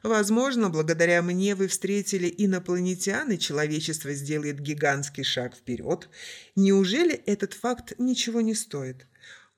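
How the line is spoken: Angry chuckle. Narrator (Russian): Маркус зло хохотнул

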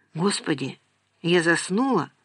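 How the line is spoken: Muttered. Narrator (Russian): пробормотала она

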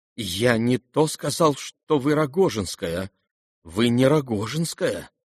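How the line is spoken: Trembling voice. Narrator (Russian): дрожащим голосом выговорил князь

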